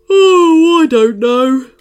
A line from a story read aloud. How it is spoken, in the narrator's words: Woodrow yawned